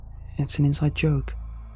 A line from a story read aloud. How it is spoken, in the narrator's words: she spoke very quietly